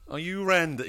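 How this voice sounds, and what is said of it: Bad Austin Powers character impression. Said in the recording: “really bad ... Austin Powers impersonations”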